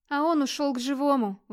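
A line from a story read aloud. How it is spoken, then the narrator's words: Weary reply. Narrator (Russian): устало отозвалась Тордис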